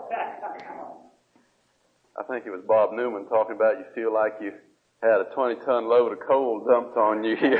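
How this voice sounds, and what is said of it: Speaks with a drawl. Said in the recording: “that's where I got my drawl”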